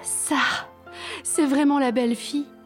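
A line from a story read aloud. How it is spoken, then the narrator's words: Sighing white bear. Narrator (French): soupira l'ours blanche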